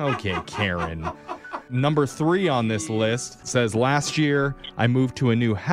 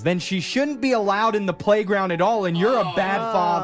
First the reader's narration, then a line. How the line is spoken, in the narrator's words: yells